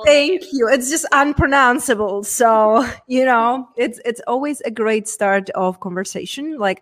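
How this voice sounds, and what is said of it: Czech accent. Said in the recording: “coming from a very small town from Czech Republic. Hence, that's where my accent”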